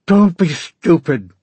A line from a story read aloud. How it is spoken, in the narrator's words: Jacob snapped